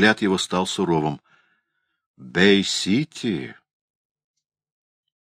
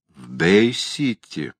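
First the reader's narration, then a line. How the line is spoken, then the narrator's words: Drawling. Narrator (Russian): протянул он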